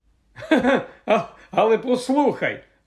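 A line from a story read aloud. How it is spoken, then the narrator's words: Laughing. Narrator (Ukrainian): Рон засміявся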